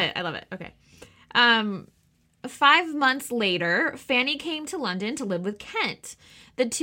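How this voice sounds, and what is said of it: Usual voice. Nothing is said of it.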